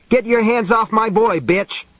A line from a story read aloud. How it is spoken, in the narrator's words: Ralph Carver yelled